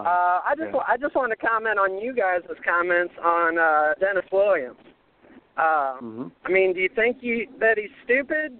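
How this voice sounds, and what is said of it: Noticeable regional accent. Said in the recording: “Some kind of accent you got there, man. We love it.”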